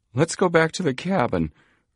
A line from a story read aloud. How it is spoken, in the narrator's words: urged plump Chet Morton nervously